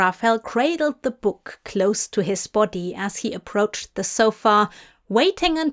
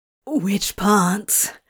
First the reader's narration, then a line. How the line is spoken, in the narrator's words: Crowley asked breathlessly, his whole body feeling like it was on fire